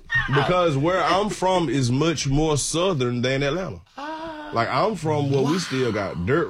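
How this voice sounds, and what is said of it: Southern American accent. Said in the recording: “obviously, it's a Southern accent.”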